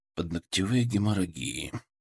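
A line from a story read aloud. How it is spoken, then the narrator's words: Muttering. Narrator (Russian): пробормотал я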